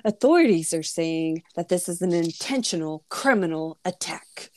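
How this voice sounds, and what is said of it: Mock newscaster voice. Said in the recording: “let me say my newscaster voice.”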